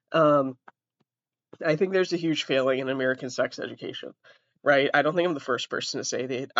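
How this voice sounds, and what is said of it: Massachusetts American accent. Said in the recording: “I'm from Massachusetts. Before anybody hops on the where's the accent from train”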